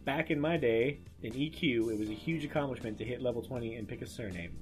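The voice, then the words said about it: Grumpy old man voice. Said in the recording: “grumpy old man voice”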